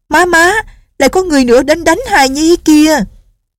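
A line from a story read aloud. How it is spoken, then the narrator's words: Little girl crying out. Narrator (Vietnamese): Tiểu cô nương la lên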